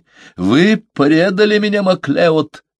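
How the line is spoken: Shouting. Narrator (Russian): закричал он

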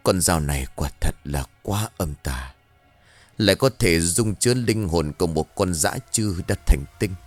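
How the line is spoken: Muttering. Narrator (Vietnamese): miệng của thầy lẩm bẩm

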